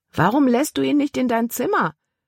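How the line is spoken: Calling after someone. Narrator (German): rief Caleb ihr nach

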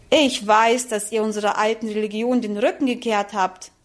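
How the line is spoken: Plain. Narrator (German): sagte die Tante

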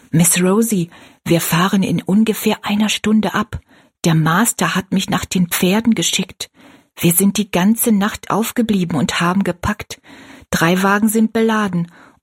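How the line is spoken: Male whisper. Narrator (German): Tobi, ein schwarzer Arbeiter ihres Vaters, flüsterte

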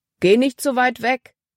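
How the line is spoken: Calling out. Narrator (German): rief Paul ihr zu

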